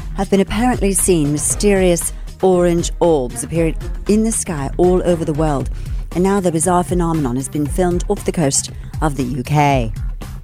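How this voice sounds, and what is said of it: Put-on British newsreader accent. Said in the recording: “I have to read this with a British accent ... You have to read it like their news people do too.”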